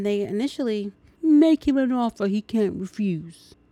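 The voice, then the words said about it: Admittedly bad movie-quote impression. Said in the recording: “my impression is really bad... my impression really is bad”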